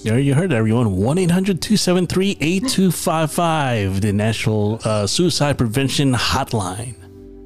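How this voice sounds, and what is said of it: Announcer-style voice. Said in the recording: “voice is just like the announcer voice”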